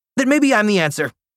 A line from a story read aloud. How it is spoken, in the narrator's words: I blurted